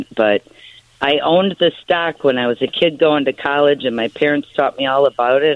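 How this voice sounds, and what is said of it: Strong Chicago accent. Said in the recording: “had a great Chicago accent.”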